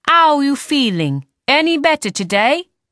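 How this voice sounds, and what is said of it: Piercing voice, Cockney-Italian accent. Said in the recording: “in a piercing voice ... Her accent is hard to place, kind of Cockney mixed with Italian.”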